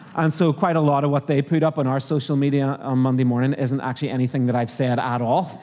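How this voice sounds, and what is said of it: Irish accent. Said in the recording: “my crazy Irish accent”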